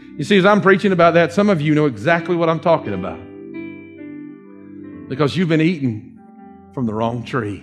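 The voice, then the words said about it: Southern US Dawsonville accent. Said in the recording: “Excuse my, my Dawsonville accent there”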